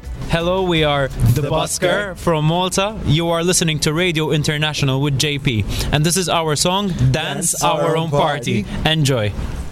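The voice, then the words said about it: Accented English. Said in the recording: “I love this accent”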